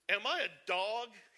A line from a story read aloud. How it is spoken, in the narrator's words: he roared at David